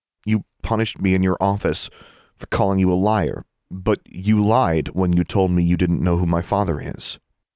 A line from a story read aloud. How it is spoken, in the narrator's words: Alexandra said in a calm, controlled voice